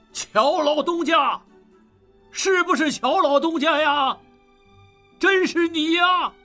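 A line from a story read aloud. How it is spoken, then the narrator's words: Overjoyed loud shout. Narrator (Chinese): 大喜过望，高声喊道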